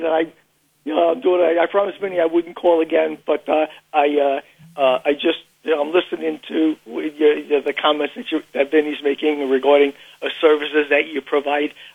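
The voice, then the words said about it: Queens New York accent. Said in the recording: “You have a Queens accent. ... Yeah, I do.”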